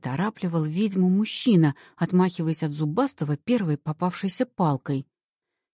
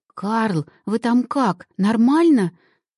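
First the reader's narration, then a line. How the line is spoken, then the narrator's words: Frightened babbling. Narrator (Russian): пролепетала ведьма, испуганно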